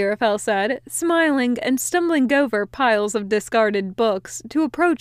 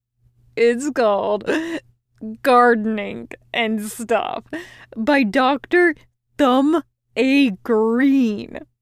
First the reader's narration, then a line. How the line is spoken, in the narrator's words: Crowley said with a giggle